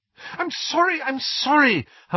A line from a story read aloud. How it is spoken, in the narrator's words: Hermione cried